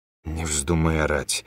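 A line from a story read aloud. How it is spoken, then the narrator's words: Mumbled. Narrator (Russian): промямлил он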